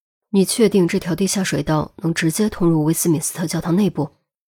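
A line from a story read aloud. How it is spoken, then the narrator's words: Quiet question. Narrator (Chinese): 低声问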